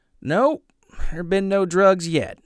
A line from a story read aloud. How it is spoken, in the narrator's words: Norm said